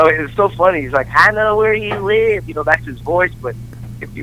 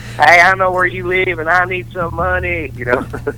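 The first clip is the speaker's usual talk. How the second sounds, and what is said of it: Redneck voice, Dale Gribble impression. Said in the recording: “doing an impression of his brother, just his redneck brother”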